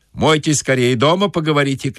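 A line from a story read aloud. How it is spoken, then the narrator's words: Shout. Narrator (Russian): крикнул банщик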